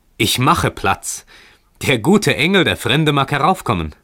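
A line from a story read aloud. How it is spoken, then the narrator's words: Calling out. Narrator (German): rief dieser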